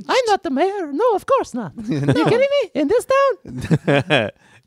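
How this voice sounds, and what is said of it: High-pitched tiny vampire character voice. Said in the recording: “we do the vampire voice for him? ... Tiny vampire ... I'm so high pitched.”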